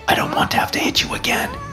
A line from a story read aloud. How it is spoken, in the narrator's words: I whisper in his ear